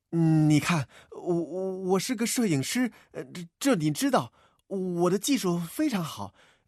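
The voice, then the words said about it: Trembling, nervous stammering voice. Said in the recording (Chinese): “摆出一副紧张的样子 ... 他尽量用哆嗦的声音说着”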